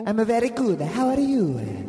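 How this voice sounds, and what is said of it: Put-on Italian accent. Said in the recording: “Talk to me in that voice with reverb ... You have a very beautiful accent ... Italy”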